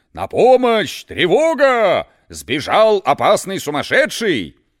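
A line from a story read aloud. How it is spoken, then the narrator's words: Guards shouting. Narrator (Russian): Из окон сумасшедшего дома выглядывали стражники и кричали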